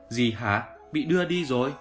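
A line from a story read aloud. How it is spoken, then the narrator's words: Loud question. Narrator (Vietnamese): Trác Mộc Cường Ba lớn tiếng hỏi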